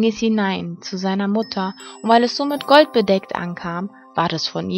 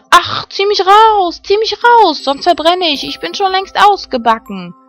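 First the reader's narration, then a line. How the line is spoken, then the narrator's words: Bread screaming. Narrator (German): schrie das Brot wieder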